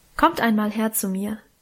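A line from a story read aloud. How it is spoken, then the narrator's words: Plain. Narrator (German): sagte Mutter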